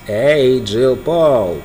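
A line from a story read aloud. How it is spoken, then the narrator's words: Creaky voice. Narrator (Russian): проскрипел он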